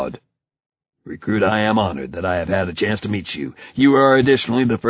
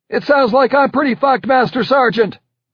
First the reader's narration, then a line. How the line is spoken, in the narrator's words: I yelled